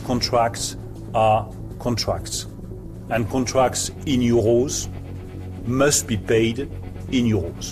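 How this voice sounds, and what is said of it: Imperfect English with French accent. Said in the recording (French): “l'accent de Bruno Le Maire n'est pas parfait”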